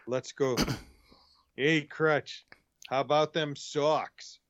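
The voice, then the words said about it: Put-on Boston accent. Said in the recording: “I'm practicing my accent so that I can do it right... Which accent are you working on?... Saying things like scallops.”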